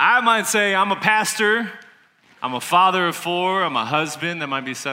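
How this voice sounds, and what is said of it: Usual voice. Nothing is said of it.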